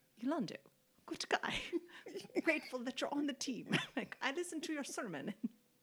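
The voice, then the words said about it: Poor imitation of another person's accent. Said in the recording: “what accent is that? I'm a terrible accent.”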